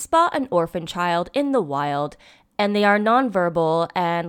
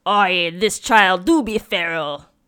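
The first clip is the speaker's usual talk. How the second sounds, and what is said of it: Ludicrous Australian pirate accent. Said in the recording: “such a ludicrous accent... I was a pirate... An Australian pirate?”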